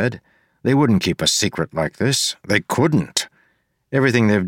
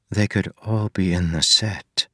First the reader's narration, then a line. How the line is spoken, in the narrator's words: Marcy said softly